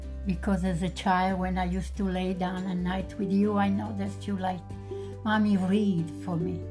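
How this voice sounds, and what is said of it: Thick Italian accent. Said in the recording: “my thick accent ... your Italian accent ... I knew it was a thick accent”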